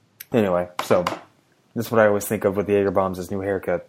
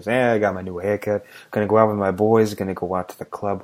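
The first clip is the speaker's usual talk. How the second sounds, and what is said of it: Put-on Boston accent. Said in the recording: “It's a good Boston accent you got there.”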